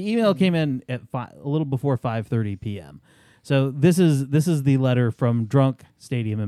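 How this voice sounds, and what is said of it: Usual voice. Nothing is said of it.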